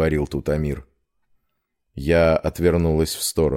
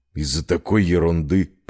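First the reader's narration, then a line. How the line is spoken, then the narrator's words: Grumbled. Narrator (Russian): проворчал Эдди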